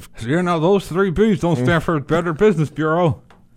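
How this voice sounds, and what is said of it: Southern accent, talking out of mouth side. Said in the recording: “That was actually really good. ... get a JR tip, get a Southern accent, talk out of the right side of your mouth ... It was more impressive seeing you actually do it live.”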